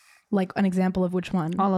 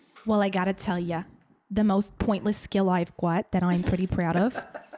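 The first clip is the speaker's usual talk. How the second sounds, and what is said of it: Put-on New Jersey accent. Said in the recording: “I could do the Jersey, the Southern and the Russian accent ... Oh, I love your Jersey ... in a Jersey accent”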